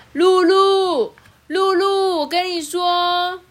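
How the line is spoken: Loud. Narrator (Chinese): 熊熊大声的说

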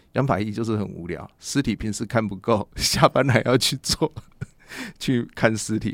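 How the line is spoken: Joking. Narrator (Chinese): 检察官就开玩笑就说

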